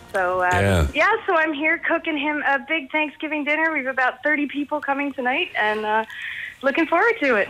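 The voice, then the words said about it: American-sounding accent. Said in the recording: “I know I sound American, but I'm actually from Dublin. But I lived over there for years.”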